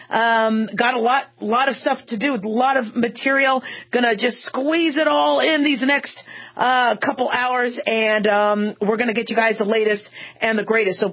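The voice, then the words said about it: Strained, rough-sounding voice. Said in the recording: “throat strain ... my not-so-sexy voice, but I promise my voice will get sexy eventually”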